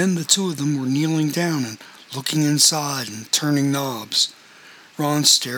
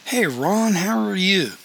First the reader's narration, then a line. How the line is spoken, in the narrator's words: in his unmistakable drawl